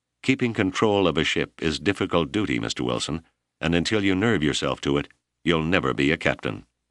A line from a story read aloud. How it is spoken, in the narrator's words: he added coldly